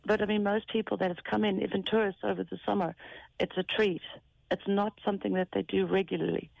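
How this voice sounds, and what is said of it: South African accent. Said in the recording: “I can't try to place your accent. ... I'm South African.”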